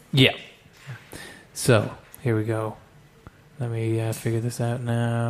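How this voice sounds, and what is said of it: Usual voice. Nothing is said of it.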